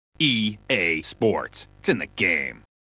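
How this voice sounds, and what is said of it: Imitates the EA Sports announcer voice. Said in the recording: “Do I sound remotely like that guy? ... I can't tell the difference. I think it's great.”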